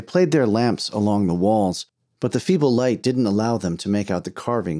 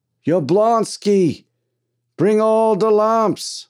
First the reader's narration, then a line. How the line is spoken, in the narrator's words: yelled